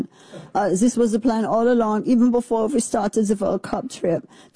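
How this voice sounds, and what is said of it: Put-on German accent. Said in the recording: “I'm just assuming German accent.”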